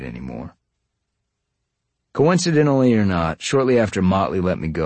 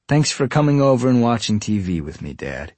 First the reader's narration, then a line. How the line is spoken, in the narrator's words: he said